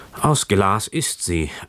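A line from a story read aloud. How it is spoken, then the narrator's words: Heavy-sighing man. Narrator (German): antwortete der Mann und seufzte noch schwerer als vorher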